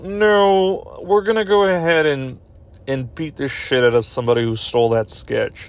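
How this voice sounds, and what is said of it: Imitates another person's voice. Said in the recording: “do a Lorne Michaels impression, but but it's going to be horrible ... So that's my Lorne Michaels.”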